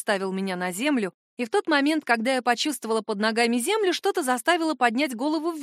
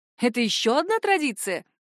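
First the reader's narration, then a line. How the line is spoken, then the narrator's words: Cheerful. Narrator (Russian): весело поинтересовался он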